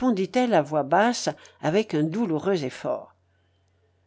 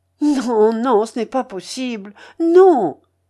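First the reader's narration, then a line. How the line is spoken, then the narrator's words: Wounded anguished cry. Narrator (French): s'écria Sonia, atteinte au cœur par ces paroles comme par un coup de poignard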